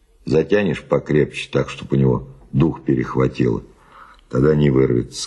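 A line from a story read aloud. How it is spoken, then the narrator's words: Plain. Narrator (Russian): сказал Мануэль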